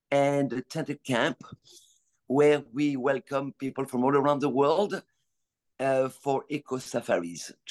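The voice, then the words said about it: French accent. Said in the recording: “you were born in France, we can tell by your accent”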